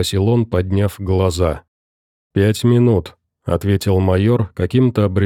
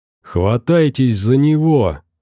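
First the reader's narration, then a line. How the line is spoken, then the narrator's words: Howling. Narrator (Russian): взвыл Лямкин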